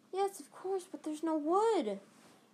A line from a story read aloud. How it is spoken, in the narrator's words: Hermione cried, wringing her hands